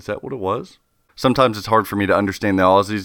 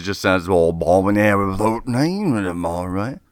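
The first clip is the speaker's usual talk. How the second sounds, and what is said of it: Mock Australian accent. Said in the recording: “That that's a good Australian accent, right?”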